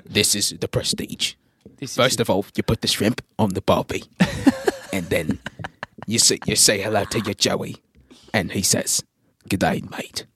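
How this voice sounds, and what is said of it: Put-on Australian accent. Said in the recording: “All my friends can do Australian accents better than I can, except for you. Somehow you don't got the genes, kid. ... I'm not doing an Australian accent.”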